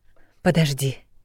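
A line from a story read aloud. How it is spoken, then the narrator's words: Hoarse voice. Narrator (Russian): произнесла хрипло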